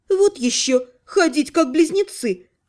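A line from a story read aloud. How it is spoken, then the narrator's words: Snort. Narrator (Russian): фыркнула целительница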